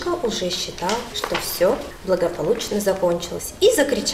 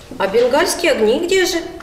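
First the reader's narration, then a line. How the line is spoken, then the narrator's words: Shout. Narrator (Russian): закричал кто-то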